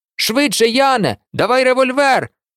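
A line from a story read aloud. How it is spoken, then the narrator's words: Shouted. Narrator (Ukrainian): закричав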